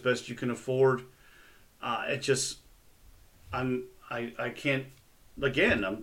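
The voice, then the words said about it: Stuttering speech. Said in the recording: “I'm stuttering because I'm at a loss for words”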